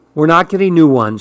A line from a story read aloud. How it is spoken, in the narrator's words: said